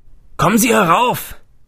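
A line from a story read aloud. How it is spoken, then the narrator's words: Man calling from above. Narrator (German): rief ein Mann von oben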